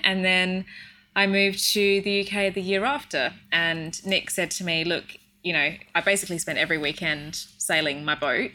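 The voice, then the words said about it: Australian accent. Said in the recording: “as if you can't tell from my accents, ... I'm from Australia”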